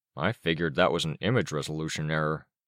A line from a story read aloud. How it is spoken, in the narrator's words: Rain murmured